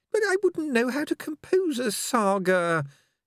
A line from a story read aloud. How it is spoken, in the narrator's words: he said feebly